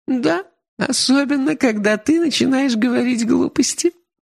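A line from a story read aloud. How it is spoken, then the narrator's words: Laughing. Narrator (Russian): рассмеялась она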